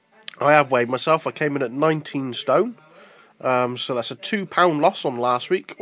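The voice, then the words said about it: Voice with a cold, coughing. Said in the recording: “excuse my cough. I've got a bit of a cold at the moment”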